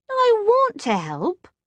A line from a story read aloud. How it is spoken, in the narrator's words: Jessie said sulkily